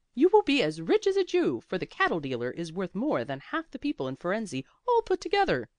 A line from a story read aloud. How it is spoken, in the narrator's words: cried Blasi